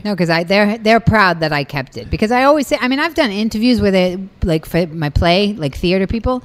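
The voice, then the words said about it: Strong Boston accent. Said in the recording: “You never lost your accent... you still have that much of a Boston accent”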